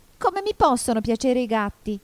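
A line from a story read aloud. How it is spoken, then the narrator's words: Squeaky, indignant mouse. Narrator (Italian): domandò il topo con voce stridula e sdegnata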